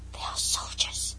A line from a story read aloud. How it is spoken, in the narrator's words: he added in an awed whisper